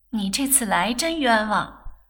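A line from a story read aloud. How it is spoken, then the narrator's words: Laughing. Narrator (Chinese): 翠芝笑道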